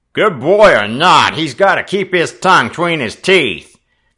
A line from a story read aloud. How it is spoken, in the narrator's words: growled the second newcomer